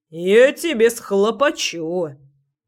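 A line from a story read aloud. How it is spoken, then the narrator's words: Grumbled, house spirit. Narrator (Russian): проворчал домовой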